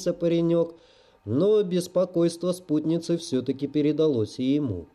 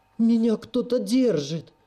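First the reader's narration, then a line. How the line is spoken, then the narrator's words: Shrill squeal. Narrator (Russian): взвизгнула та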